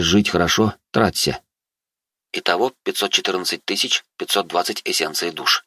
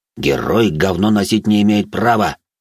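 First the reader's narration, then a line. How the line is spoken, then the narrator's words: Growling. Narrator (Russian): рычал он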